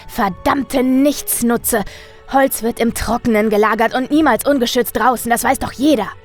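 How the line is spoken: Shouting. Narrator (German): schrie

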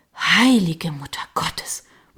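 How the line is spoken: Murmur. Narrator (German): murmelte ich

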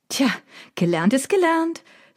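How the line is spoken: Triumphant call. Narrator (German): rief ich triumphierend

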